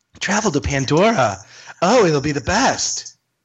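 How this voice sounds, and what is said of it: Imitates another person's voice. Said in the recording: “my Stacey Aswad impression”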